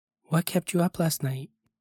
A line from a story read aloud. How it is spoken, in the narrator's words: she quietly asked me